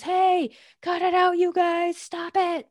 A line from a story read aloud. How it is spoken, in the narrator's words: I'm yelling at the dogs